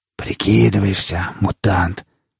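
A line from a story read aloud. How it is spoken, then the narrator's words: Feverish whisper. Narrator (Russian): горячечно шептал лесник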